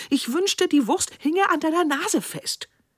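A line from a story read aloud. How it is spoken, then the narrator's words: Woman calling out. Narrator (German): rief die Frau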